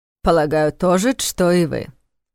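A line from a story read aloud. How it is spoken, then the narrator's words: Wry snort. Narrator (Russian): хмыкнул Млинарш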